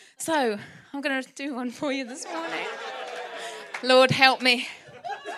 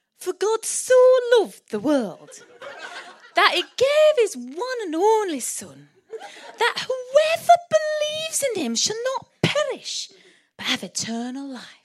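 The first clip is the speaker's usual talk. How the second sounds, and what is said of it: Put-on Birmingham (Brummie) accent. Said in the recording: “imagine it in a Brummie accent, Birmingham accent ... I think I can do the accents, but I can't almost do any of them”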